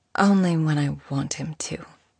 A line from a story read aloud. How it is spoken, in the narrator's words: she answered quietly